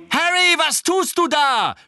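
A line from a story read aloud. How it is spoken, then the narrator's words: Shouted. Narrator (German): schrie Angelina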